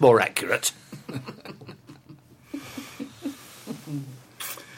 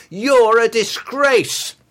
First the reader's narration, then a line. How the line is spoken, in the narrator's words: I found myself shouting